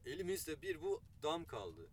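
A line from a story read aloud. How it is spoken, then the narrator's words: Plain. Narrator (Turkish): dedi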